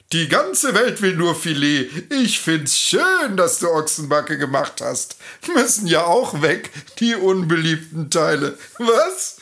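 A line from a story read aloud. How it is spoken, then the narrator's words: Laughing. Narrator (German): lacht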